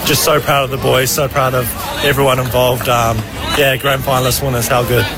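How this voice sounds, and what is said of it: Exhausted, worn-out voice. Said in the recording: “You can hear it in my voice. I've got nothing left”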